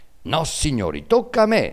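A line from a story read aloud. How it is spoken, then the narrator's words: Shrill shriek. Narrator (Italian): strillò Arnolfo, il trombettiere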